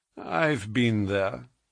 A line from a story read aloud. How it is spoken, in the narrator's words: said he dryly